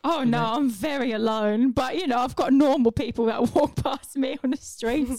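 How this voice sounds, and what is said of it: Poor Dick Van Dyke-style accent. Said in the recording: “Back to Dick Van Dyke now... A poor accent”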